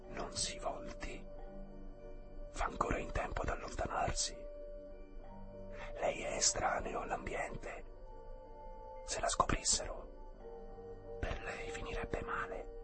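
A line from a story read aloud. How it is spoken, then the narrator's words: Woman's whisper from behind. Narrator (Italian): una voce di donna sussurrò alle sue spalle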